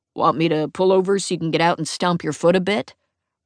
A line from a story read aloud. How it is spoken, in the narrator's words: I growl